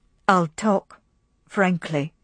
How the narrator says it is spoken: he said slowly

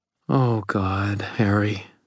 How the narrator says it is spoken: Murphy said, her voice full of pain

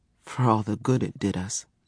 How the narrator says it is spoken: Zara muttered

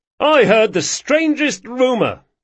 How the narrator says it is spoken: yelled Carlo

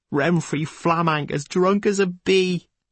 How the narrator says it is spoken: his gurgling chuckle and the words

